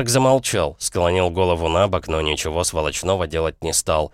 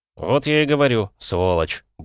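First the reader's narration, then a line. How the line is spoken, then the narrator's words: Muttered despite fear. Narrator (Russian): буркнул я, хотя было страшновато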